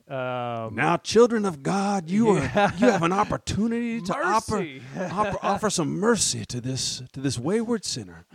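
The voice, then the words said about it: Preacher voice. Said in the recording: “bring out that preacher voice”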